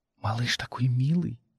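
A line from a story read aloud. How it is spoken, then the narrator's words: Whisper. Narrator (Russian): шепнула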